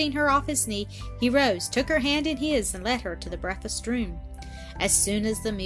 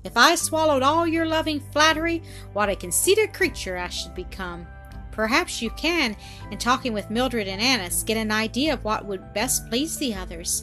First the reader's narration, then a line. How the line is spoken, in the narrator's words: he said, laughing